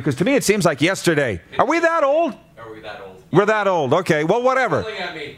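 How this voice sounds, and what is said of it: Yelling, raised voice. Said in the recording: “Sorry for yelling”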